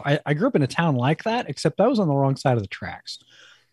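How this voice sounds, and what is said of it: New Jersey accent. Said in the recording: “I'm from the East. You might be able to hear it in my voice. I'm originally from New Jersey”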